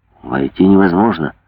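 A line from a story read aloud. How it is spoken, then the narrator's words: Muttering through teeth. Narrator (Russian): бормотал он сквозь зубы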